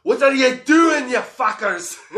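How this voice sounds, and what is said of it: Quoted line in Scottish accent. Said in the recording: “in a Scottish accent too”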